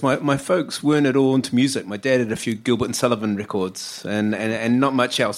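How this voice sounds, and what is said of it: New Zealand accent. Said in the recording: “my accent that I come from down under ... I'm a Kiwi”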